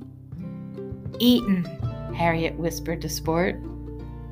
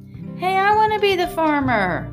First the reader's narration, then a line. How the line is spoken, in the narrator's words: Sport yelled